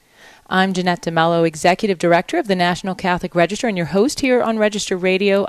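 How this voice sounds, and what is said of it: Slightly hoarse voice. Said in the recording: “you can hear my voice, I'm a little hoarse. I've been sick”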